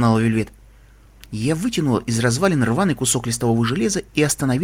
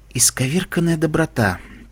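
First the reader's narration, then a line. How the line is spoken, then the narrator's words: Whisper in goddess voice. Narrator (Russian): прошептала голосом богини маленькая пони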